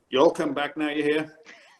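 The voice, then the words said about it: Put-on American Southern accent. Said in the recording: “my southern one, and I apologize to anybody from the south here”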